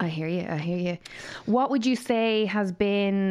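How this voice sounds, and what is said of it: Usual voice. Nothing is said of it.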